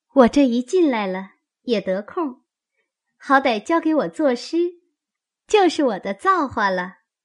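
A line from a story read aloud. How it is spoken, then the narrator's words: Sly laugh. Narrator (Chinese): 香菱阴笑道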